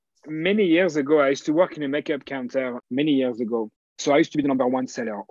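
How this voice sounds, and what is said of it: French accent. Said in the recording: “being French ... the accent, I'm sure, is cutting you through a lot of assignments because you stand out”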